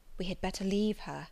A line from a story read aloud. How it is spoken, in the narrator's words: whispered Mason